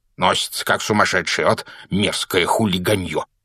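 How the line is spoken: Grumbling. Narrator (Russian): проворчал он

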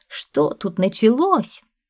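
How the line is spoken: Offended rustling. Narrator (Russian): Зеленый сад обиженно зашелестел

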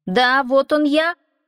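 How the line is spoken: Shouted reply. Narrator (Russian): крикнул Аскелад в ответ

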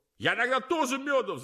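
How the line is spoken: Shouting. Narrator (Russian): закричал другой

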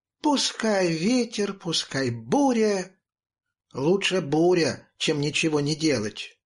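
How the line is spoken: Cheerful thin singing. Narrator (Russian): тонкий голосок Милы, которая весело распевала

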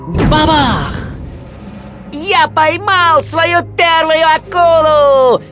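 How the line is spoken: Excited shout. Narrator (Russian): возбужденно закричал Уорд

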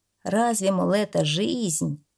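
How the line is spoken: Habitual snort. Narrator (Russian): Ворона только привычно хмыкнула

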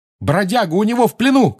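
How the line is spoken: Shout. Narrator (Russian): крикнул он

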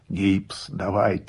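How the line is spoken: Hoarse reply. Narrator (Russian): сипло отозвался я

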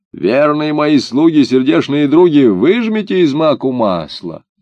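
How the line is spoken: Old woman shouting. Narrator (Russian): Старуха крикнула

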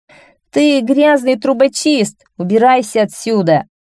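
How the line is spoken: Loud laughing guards. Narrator (Russian): Гвардейцы стали громко хохотать и сказали

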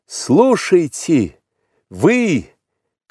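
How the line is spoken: Shouted. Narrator (Russian): крикнул он

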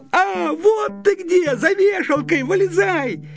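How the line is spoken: Shout. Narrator (Russian): Славик закричал

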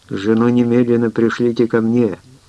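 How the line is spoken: Excited, passionate. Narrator (Russian): взволнованно и страстно говорил я

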